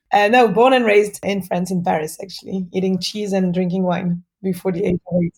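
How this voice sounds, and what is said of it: French accent. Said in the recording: “you are legitimate French ... That is a 100% legitimate accent.”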